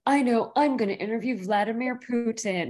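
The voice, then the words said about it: Prince Harry impression, non-British accent. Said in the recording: “So I did that in a non-British accent.”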